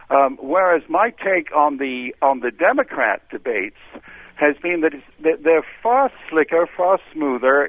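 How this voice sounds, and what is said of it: British accent. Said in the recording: “as you can tell from my accent, I am British born.”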